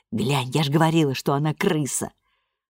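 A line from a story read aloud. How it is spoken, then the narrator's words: Whispered. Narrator (Russian): Этель прошептала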